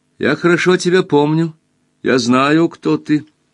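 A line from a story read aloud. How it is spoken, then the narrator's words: Very loud. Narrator (Russian): Рамборг очень громко сказала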